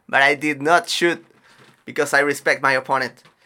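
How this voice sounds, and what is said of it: Imitates another person's accent. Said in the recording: “Why did I make like a GSP accent?”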